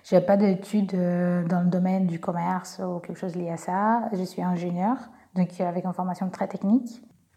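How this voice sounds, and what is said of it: Slight Brazilian accent in French. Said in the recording (French): “comme vous pouvez entendre, je suis brésilienne, j'ai un petit accent”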